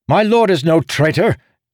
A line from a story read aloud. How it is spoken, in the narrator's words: Jezenrosh's messenger snapped